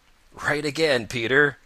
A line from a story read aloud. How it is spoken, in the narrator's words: laughed Old Mother Nature